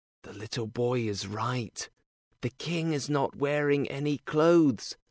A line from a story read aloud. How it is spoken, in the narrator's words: All the people whispered